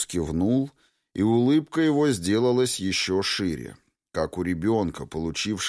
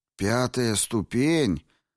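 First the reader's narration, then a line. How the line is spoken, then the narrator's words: Bewildered. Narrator (Russian): растерянно произнес кто-то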